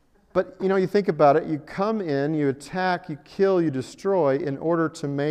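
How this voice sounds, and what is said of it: Usual voice. Nothing is said of it.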